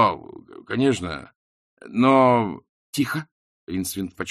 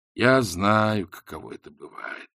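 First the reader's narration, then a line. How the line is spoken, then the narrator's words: Sighing narration. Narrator (Russian): вздохнув, поведал Ринсвинд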